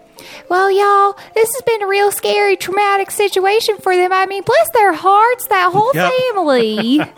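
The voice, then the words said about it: Put-on redneck Southern accent. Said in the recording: “I can do a redneck accent because that's my mom talking right there.”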